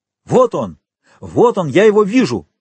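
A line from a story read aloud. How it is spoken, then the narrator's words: Shout behind a door. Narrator (Russian): крикнул голос за дверью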